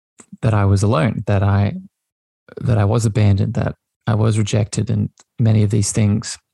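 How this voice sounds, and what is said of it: Voice slightly thick with emotion. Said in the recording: “you can actually hear in my voice, there is still a bit of emotion there”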